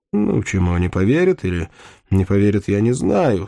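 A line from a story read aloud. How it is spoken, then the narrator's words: Calm. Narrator (Russian): спокойно сказал Мальвуазен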